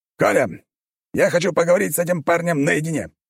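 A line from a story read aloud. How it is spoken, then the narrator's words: Commanding tone. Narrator (Russian): приказным тоном сказал Дзержинский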